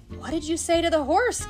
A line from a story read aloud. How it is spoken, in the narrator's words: gasped Ferdy